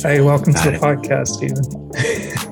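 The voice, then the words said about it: Deliberately low podcast voice. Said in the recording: “You meant like, so low. ... It's our podcast voice ... if it goes too low”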